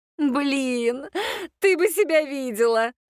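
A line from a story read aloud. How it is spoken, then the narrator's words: Muttering after laughter. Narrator (Russian): Отсмеявшись, пробормотала Аннет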